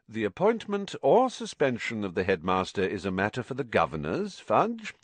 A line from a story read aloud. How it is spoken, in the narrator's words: said Mr